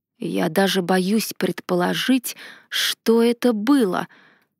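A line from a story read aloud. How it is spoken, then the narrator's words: Hoarse, recovering. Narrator (Russian): хрипло заметил Ардар, придя в себя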